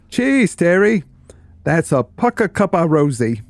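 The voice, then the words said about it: Poor attempt at broad Cockney accent. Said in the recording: “Best said with a broad Cockney accent ... It's really bad at accents”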